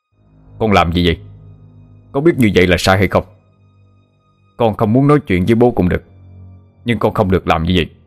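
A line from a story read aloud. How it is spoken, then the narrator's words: Angry shout. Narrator (Vietnamese): Bố Ratana tức giận quát lên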